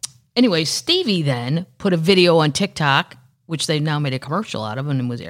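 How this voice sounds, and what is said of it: Usual voice. Nothing is said of it.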